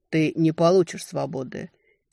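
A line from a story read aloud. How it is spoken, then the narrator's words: Quiet but firm. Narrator (Russian): тихо, но твердо проговорил Герхельд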